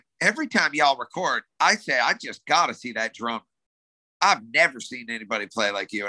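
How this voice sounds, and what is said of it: Put-on light Southern accent. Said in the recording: “little Southern accent.”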